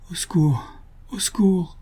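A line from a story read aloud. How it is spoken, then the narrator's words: Repeated softly, several times. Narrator (French): redit tout bas, à plusieurs reprises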